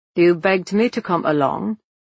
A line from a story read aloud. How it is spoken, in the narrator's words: he says coldly